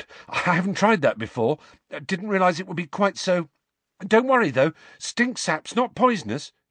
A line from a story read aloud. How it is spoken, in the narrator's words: he added nervously